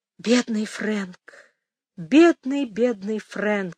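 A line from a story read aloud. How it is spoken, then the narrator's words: Sighing. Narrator (Russian): вздохнула она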